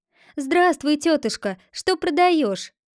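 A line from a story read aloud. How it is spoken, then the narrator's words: Called out. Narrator (Russian): крикнула торговке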